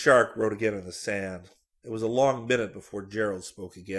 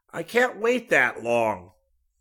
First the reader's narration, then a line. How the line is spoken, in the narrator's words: Gerald said irritably